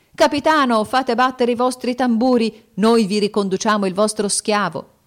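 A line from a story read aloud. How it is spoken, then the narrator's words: Festive group shouting. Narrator (Italian): Colaggiunti gridarono festosamente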